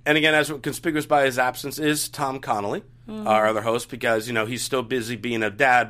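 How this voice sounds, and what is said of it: Slightly hoarse voice. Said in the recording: “I'm getting over a little cold. My voice is a little hoarse.”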